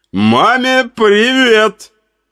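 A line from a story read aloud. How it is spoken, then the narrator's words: Old man shouting after. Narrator (Russian): крикнул старик мне в спину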